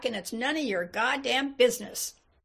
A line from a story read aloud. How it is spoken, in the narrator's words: bellowed back